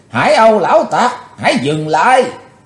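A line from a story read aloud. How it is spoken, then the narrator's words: Shouted. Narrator (Vietnamese): Bạch Phát Ma Cơ đã quát lên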